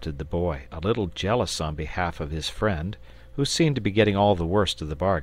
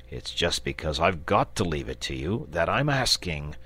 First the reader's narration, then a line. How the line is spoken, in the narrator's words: replied the dragon rather testily